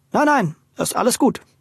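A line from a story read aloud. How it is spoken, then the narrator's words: Hasty reassurance. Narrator (German): versicherte Luis hastig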